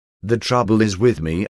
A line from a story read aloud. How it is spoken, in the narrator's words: he said